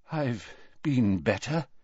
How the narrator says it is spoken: said Dumbledore weakly

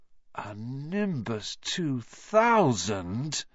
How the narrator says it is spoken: Ron moaned enviously

